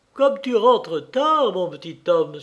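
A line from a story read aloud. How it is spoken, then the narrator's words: Exclaiming. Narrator (French): s'écria-t-elle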